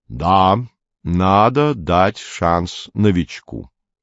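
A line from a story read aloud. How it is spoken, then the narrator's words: Plain. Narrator (Russian): сказал Бадер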